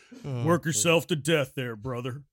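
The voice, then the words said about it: Imitates another person's voice. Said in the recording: “my best Macho Man impression”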